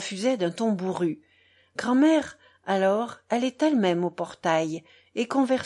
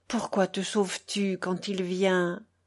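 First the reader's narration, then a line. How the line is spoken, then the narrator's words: Murmuring. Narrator (French): murmura-t-elle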